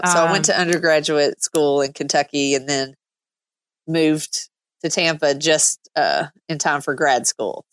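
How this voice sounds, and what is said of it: Kentucky Southern accent. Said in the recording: “Your accent might be throwing them. You're from Kentucky originally ... I don't think my accent's going anywhere anytime soon”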